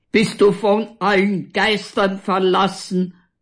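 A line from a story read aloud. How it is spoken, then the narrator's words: Roaring. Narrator (German): brüllt Walter weiter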